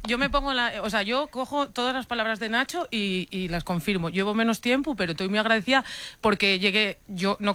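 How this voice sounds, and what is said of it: Asturian Spanish accent. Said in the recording (Spanish): “hemos reivindicado tu acento ... hablo asturiano”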